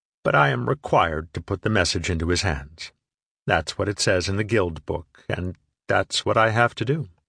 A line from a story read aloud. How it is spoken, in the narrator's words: said evenly